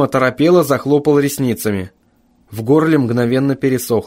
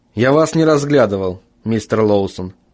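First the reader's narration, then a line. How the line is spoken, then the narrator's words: Even-toned objection. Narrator (Russian): возразил Джим все тем же ровным тоном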